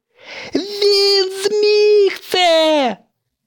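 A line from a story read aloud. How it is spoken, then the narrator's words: Joyful shout. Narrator (Ukrainian): радісно закричав ведучий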